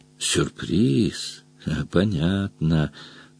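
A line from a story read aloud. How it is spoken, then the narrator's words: Grumbling. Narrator (Russian): проворчал Дром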